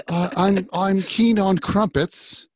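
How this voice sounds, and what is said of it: Bad put-on British accent. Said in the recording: “that's a terrible British accent.”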